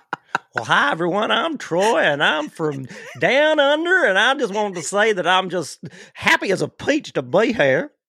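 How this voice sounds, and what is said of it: Put-on Kentucky accent. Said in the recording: “that was my Kentucky accent.”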